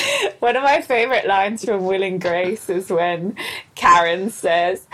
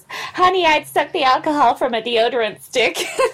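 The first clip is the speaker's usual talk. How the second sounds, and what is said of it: Impression of Karen from Will and Grace. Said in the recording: “really good impression ... My voice and hers are like a similar pitch.”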